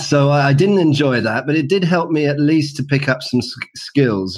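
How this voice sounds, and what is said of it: British accent. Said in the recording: “in London, in the UK, as you can probably tell from my accent.”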